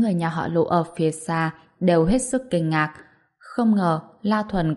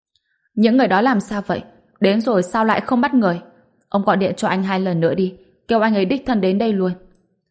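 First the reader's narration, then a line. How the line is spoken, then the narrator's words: Angry. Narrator (Vietnamese): Hoàng Ngọc Anh tức giận nói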